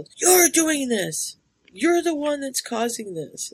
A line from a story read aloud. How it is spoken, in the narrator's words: he just yells